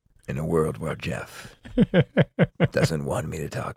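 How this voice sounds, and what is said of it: Movie-trailer radio announcer voice. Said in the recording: “my radio announcer voice ... It's less like the announcer guy and more like Paul Rudd does the announcer guy.”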